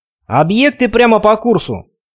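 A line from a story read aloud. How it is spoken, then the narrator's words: Shout. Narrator (Russian): крикнул Ахметка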